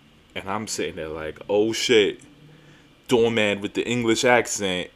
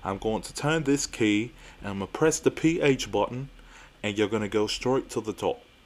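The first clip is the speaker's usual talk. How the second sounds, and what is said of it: Put-on English accent sounding Australian. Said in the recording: “my British accent or English accent sounds Australian”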